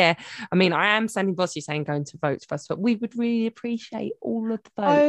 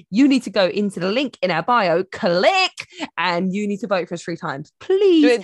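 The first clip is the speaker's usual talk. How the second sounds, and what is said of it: Bossy teacher voice. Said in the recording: “I'm sounding bossy because I'm a teacher again ... the teacher voice ... bossy boots”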